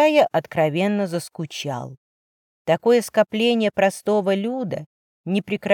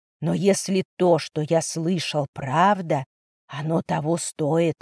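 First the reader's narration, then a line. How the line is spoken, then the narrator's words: Muttered. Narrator (Russian): пробормотал он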